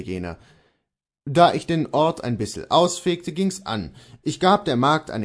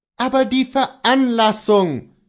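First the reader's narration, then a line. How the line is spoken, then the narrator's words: Called out. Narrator (German): rief Kohlhaas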